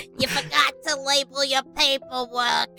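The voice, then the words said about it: Imitated cartoon character voice, Boston-like accent. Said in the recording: “Oh my, what is that accent? ... That was more like Boston. That wasn't Jewish.”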